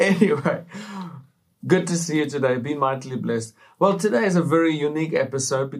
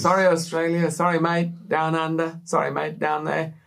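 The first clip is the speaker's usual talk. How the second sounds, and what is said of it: Put-on Australian accent. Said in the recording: “The accent. He does good accents. ... So I could have done better, right?”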